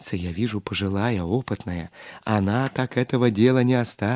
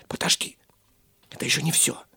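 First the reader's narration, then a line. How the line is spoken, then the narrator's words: Whisper. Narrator (Russian): шепнул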